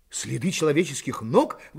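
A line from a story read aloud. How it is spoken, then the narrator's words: Exclamation. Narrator (Russian): воскликнул Пенкроф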